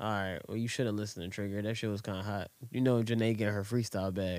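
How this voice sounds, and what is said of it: Usual voice. Nothing is said of it.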